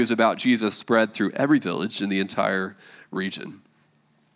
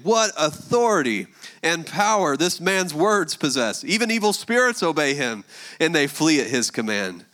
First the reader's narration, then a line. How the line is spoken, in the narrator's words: Amazed, the people exclaimed